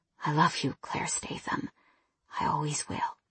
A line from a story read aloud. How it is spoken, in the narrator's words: He whispered